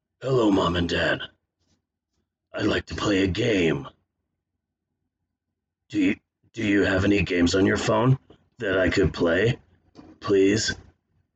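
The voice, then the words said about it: Jigsaw voice as a young child. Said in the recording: “my impression of Jigsaw if he was an eight year old child”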